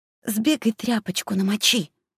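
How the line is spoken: Very confident. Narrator (Russian): Домовенок говорил очень уверенно

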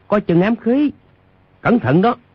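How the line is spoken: Crowd shouting loudly. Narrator (Vietnamese): trong quần cái có hơn 10 người cao giọng kêu

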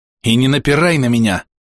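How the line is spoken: Merchant growling over shoulder. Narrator (Russian): рыкнул за спину купец

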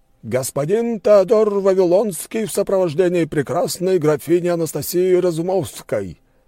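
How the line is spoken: Loud announcement. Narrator (Russian): громко объявил дворецкий

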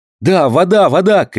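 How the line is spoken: Shouting. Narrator (Russian): крикнул Роберт

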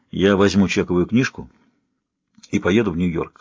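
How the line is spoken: Plain. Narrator (Russian): сказал он Хью

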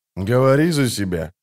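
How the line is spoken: Grumbled. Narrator (Russian): буркнул ведьмак

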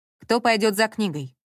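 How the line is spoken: Plain question. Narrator (Russian): спросил Саша

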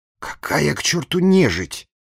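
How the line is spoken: Angry self-rebuke, official. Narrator (Russian): сердито одернул себя губернский секретарь

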